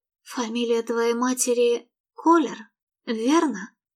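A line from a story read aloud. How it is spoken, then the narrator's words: Dull, melancholy mutter. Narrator (Russian): Тоскливо глухим голосом пробормотала она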